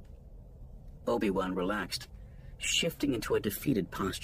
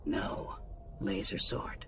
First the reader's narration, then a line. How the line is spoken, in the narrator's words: Roog said, lowering her voice even further as the guards approached